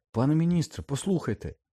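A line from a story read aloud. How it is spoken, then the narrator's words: Exclaimed. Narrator (Ukrainian): вигукнув Гаррі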